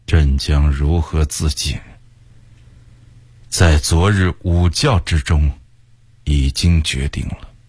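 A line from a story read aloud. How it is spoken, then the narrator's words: Sighing. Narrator (Chinese): 崇祯叹了口气，向魏工人说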